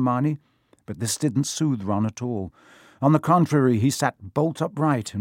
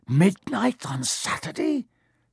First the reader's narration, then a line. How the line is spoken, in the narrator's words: he said in a hoarse voice